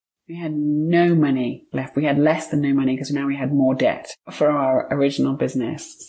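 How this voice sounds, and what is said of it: British English accent. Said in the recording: “it sounds like you're born in the UK based on your accent... I'm British”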